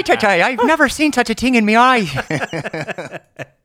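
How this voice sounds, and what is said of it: Jamaican accent drifting toward Irish. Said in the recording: “every time I try to do a Jamaican accent, it always turns Irish”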